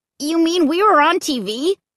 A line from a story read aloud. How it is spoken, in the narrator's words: Luke cried